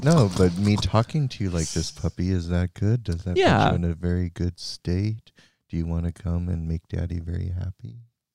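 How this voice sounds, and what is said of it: Slow monotone hypnotic voice. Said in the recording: “in a very monotone, very ... is this hypnotic for you?”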